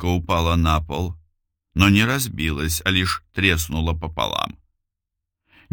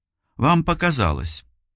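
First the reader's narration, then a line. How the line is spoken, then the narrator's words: Hurried. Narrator (Russian): торопливо проговорила она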